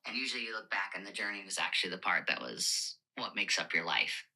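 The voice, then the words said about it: Raspy, phlegmy smoker's voice. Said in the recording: “What is that voice? ... Phlegm? Is that phlegm? Mucinex? ... Smoke? ... chain smoke. Smoking.”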